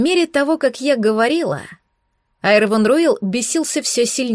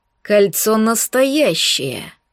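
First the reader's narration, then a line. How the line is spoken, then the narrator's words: Through gritted teeth. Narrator (Russian): процедил сквозь зубы эльф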